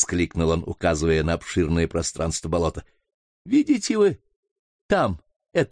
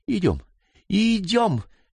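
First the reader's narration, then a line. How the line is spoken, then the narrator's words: Exclaimed. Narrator (Russian): воскликнул Франклин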